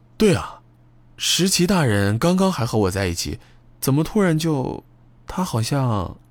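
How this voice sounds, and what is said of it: Quiet, sheepish muttering. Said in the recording (Chinese): “有些羞愧的小声嘀咕道”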